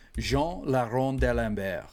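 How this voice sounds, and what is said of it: Put-on French accent. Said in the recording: “That's my best French accent.”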